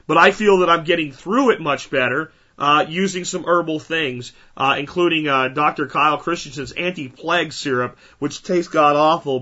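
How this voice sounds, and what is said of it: Sick, congested-sounding voice. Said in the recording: “I've been sick for like 2 weeks with some crud ... You guys can hear it in my voice.”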